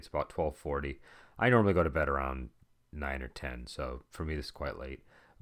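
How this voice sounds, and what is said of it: Relaxed, slightly odd-sounding voice. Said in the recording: “my voice sounds odd or why it's a little bit more relaxed than normal”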